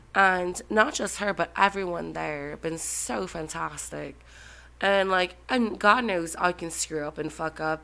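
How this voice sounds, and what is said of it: Nasal congested voice, Irish accent. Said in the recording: “I have an Irish accent, even though I'm nasally as hell, I'm getting over a cold”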